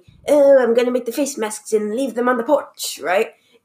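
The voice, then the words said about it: Put-on British accent. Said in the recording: “I don't know why she has a British accent now”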